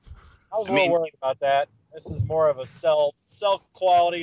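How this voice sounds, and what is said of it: Usual voice. Nothing is said of it.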